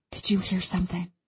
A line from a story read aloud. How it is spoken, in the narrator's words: I whisper